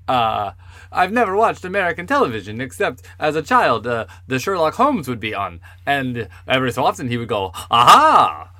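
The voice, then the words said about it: Put-on Swedish accent. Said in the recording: “This is a Swedish accent.”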